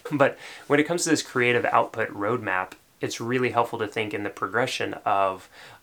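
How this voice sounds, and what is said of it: Slight Tennessee accent. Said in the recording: “A little bit of my Tennessee accent coming out.”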